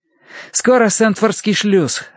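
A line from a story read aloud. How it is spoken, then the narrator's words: Joyful announcement. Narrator (Russian): радостно объявил Терренс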